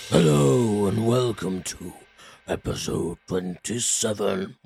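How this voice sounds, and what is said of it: Spooky scary voice. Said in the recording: “scary voice opening”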